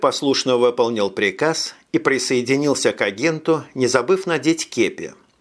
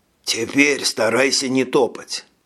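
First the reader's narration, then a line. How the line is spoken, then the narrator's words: Warning whisper. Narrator (Russian): предупредил агент, переходя на шепот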